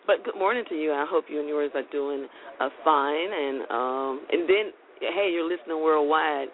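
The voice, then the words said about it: Raspy, deep, groggy morning voice. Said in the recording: “Excuse my raspy deep voice. If it sounds a little groggy, it's just that morning voice ... I have a raspy deep voice, and it's just this morning voice”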